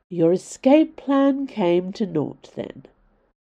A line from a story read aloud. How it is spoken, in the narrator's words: said Valeria in a low, teasing drawl